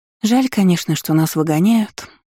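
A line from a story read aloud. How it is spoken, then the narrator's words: Wistful sigh. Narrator (Russian): вздохнула с тоской Иза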